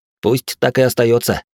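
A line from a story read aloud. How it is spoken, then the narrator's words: Snort. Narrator (Russian): хмыкнул я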